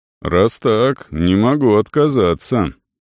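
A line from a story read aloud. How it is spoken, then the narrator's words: Smiling speech. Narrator (Russian): проговорил Арон, улыбаясь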